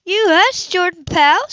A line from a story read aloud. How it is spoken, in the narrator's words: she shouted him